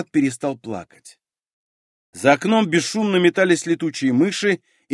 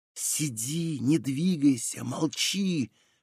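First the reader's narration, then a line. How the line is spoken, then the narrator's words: Impassive whisper. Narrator (Russian): шептал Ариэль, бесстрастный, как всегда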